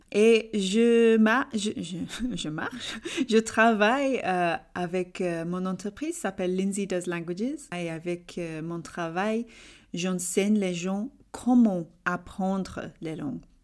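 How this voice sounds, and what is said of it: English accent speaking French. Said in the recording (French): “ton magnifique accent ... je suis anglaise d'Angleterre”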